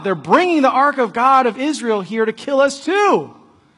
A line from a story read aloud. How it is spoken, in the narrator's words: But when the people saw it coming, they cried out